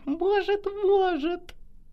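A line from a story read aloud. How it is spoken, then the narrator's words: Disembodied giggle. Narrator (Russian): хихикнул бесплотный собеседник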